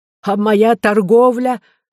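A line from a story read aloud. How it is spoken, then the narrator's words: Merchant exclaiming. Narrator (Russian): воскликнул купец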